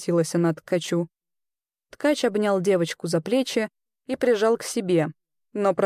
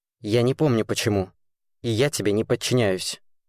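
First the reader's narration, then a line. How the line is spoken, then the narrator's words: Rude, curt. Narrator (Russian): грубо бросил ткач Серафиме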